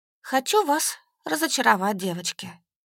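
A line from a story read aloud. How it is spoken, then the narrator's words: Sighing. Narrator (Russian): вздохнув, сказала я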